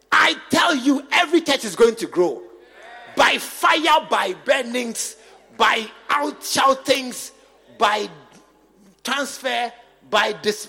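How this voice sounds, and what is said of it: Shouting preacher voice. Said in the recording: “why are you shouting? Because I'm now beginning to shout.”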